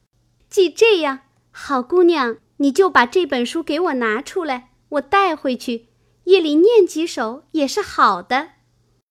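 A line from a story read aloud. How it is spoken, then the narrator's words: Laughing. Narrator (Chinese): 香菱笑道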